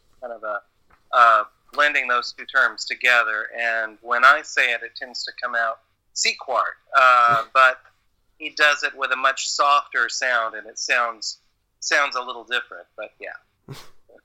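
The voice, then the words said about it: Southern American accent. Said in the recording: “my Southern accent can't quite manage”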